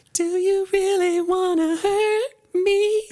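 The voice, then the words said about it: Singing in falsetto. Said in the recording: “that's like all falsetto”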